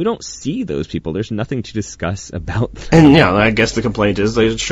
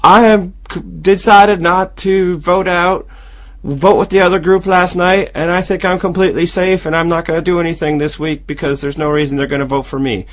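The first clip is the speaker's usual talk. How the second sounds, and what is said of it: Poor southern accent imitation. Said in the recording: “Your your Jefra accent is now my favorite imitation you've ever done ... I think that was quite possibly the worst ... you are the absolute worst possible person to even attempt a southern accent”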